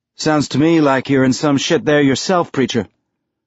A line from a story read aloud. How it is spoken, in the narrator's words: Holden replied